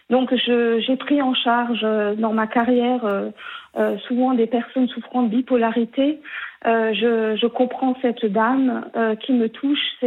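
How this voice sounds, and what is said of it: Alsatian regional French accent. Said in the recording (French): “Je vous appelle du Haut-Rhin, d'Alsace. ... on entend votre accent.”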